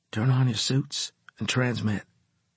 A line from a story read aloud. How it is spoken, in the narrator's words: I said quietly